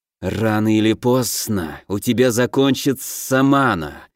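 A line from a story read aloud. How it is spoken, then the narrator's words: Hissing. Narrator (Russian): прошипел Наг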